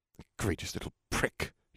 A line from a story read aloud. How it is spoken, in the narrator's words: he spat out